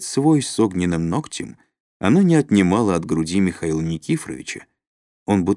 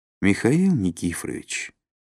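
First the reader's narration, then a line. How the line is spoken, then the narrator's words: Sad. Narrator (Russian): грустно покачала головой Любовь Николаевна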